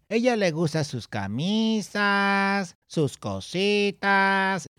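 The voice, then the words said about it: Exaggerated sing-song Spanish accent. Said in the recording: “That's how I get that accent, right? Because they sing it... when I do it, it doesn't sound legit. Maybe it's because I exaggerate... too much... you're heightening it too much”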